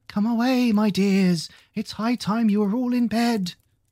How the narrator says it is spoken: a canary called out in a trembling voice to its children

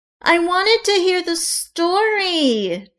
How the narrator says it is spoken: Juliet whined

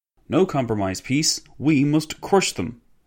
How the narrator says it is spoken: exclaimed a former minister of public works

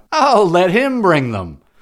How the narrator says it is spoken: they cried out

